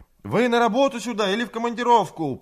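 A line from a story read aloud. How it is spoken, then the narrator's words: Shout carried off by wind. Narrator (Russian): прокричала Людмила, но ветер отбросил голос ее в сторону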